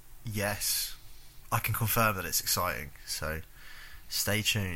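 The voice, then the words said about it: Flat, unenthusiastic delivery. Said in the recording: “You can tell it's good from his fucking flat response.”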